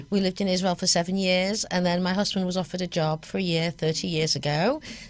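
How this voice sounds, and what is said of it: English accent. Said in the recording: “that's not a Boston accent... No, it's an English accent, as you can well tell”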